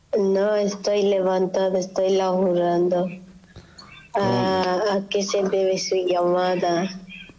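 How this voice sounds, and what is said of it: Hoarse voice. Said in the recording (Spanish): “Un poco estoy ronca. ... Ah, ¿estás ronca? ... me enfermé”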